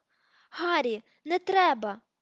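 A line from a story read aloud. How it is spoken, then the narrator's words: Shout. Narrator (Ukrainian): І тут хтось закричав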